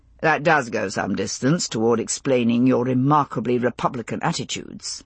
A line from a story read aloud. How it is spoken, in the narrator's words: he replied very dryly